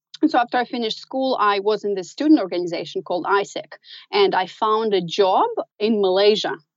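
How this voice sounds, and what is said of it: Slight American accent. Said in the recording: “my accent is a little bit American”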